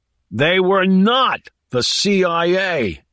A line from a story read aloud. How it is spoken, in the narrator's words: yelled South